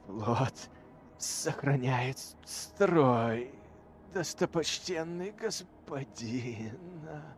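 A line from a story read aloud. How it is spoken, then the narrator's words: Hoarse rasping creature. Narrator (Russian): Прохрипело создание, бывшее теперь магистром ауспиков корабля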